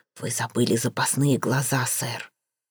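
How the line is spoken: Whisper. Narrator (Russian): пояснил шепотом

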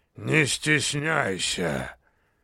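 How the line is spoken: Monster, deep bass. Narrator (Russian): пробасило чудище

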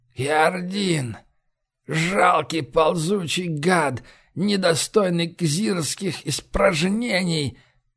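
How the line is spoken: Hoarse rasp. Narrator (Russian): прохрипел Радбонг

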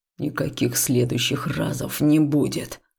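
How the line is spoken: Growl. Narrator (Russian): рыкнул Хаул

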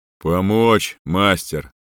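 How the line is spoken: Booming voice from behind. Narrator (Russian): прогудело сзади

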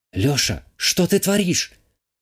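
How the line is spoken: Worried whisper in ear. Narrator (Russian): Обеспокоенно шепнула мне на ухо Вика

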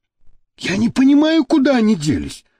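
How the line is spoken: Exclaiming. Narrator (Russian): воскликнул тот

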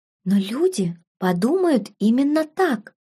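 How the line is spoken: Near whisper. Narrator (Russian): почти прошептала Беладонна, глаза девушки наполнились слезами

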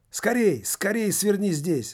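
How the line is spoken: Shouting. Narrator (Russian): закричал Лувертюр рабу-водителю

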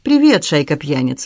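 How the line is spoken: Cheerful. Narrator (Russian): весело сказала она

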